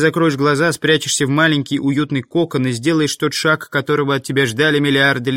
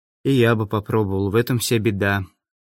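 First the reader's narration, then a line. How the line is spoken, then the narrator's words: Sad, smiling. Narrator (Russian): тот грустно улыбнулся и сказал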